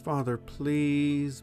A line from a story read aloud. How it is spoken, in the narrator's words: Bethany begged